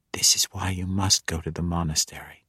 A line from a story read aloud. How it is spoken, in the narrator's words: she whispered